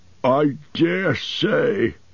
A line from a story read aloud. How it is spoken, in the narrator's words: grumbled Bomber